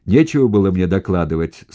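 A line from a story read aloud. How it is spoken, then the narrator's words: Angry commander shouting. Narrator (Russian): багровей, кричал командир дивизии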